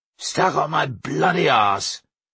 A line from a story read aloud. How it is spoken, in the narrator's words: he said gruffly